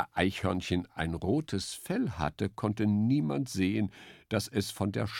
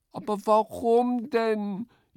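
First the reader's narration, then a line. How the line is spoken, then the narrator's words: Wailing. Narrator (German): jammerte Eichhörnchen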